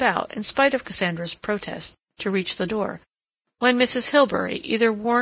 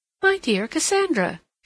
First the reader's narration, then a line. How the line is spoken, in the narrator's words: she exclaimed